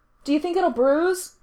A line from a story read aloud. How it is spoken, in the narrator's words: Gerard asks, voice a shout from the bathroom